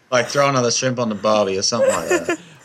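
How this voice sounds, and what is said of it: Australian accent. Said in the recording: “I'm an Aussie. I don't do American. ... Tell me to do something Aussie and I'll do something Aussie.”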